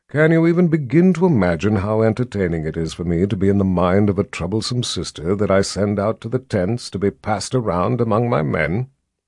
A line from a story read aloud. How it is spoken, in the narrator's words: Jagang asked in a calm, almost pleasant voice